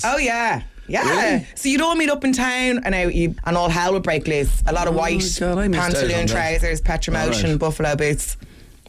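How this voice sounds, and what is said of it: Posh south Dublin accent. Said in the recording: “Dave reckons I sound posher than him ... you have literally the mouse D4 accent.”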